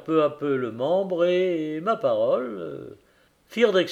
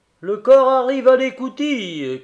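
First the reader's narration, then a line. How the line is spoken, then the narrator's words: Marine sergeant shouting. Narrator (French): criait le sergent de marine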